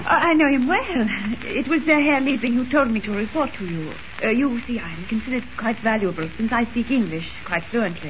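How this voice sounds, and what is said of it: Fake foreign accent. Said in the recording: “Drop the phony accent.”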